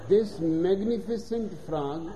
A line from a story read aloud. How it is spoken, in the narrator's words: says Harvey